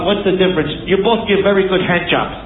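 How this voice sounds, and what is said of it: Put-on foreign accent. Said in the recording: “What accent is ... doing? We have to play a game where ... we name the accent”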